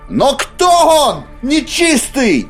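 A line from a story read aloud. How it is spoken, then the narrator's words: Shouting, inwardly calm. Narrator (Russian): выкрикнула она, хотя внутри оставалась спокойной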